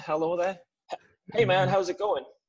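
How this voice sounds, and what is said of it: Mocking Midwestern accent. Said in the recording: “Was that your lame Midwestern? ... was that your Midwestern mocking impersonation”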